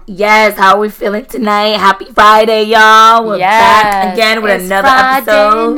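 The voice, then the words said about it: Hoarse, lost voice. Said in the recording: “I lost my voice ... gonna go up and down”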